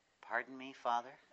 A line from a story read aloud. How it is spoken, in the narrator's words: The second shout was more tentative, though not all hope had been lost